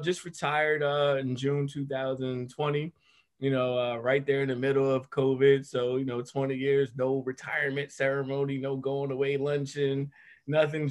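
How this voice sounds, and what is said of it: Regional American accent. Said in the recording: “I hear the accent though. I like it”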